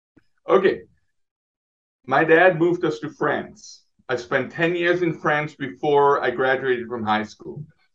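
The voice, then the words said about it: Swiss accent. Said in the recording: “your accent, you know, you're from Switzerland”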